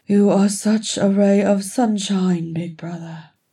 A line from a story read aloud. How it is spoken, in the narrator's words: Frerin grumbled